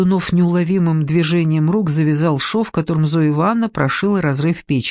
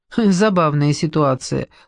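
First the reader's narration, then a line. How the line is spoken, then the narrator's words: Snorting. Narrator (Russian): хмыкнул он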